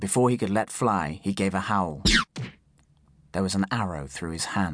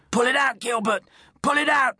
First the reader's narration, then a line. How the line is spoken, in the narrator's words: shouted